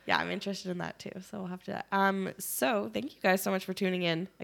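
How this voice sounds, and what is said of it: Sick, wonky-sounding voice. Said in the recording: “I'm sorry that I'm sick and my voice is kind of wonky”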